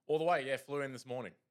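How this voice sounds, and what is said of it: Put-on local accent. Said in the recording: “And my accent is already this good. ... He's embraced the culture quickly.”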